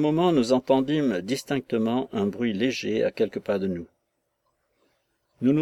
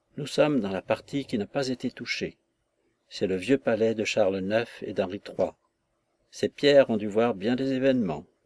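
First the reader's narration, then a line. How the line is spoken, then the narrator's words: Breathy low murmur. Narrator (French): La reine murmura d'une voix basse, comme un souffle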